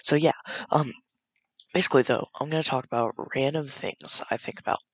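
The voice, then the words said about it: Quiet, tired, soft-spoken voice. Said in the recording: “I'm talking very quietly. It's meant for me to talk louder. ... I'm probably gonna talk louder than this. ... I'm really tired”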